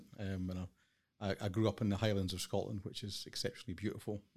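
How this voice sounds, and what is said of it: Scottish accent. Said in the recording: “I'm from Scotland. You might detect from the accent.”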